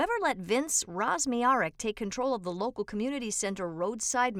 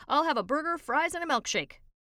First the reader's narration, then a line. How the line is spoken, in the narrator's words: A drunk shouts